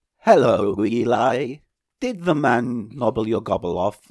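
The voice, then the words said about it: Robotic voice. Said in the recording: “my robot voice”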